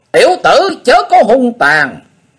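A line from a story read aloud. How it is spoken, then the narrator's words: Piercing silk-tearing scream. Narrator (Vietnamese): Phụng Hoàng Ma Cơ thét như lụa xé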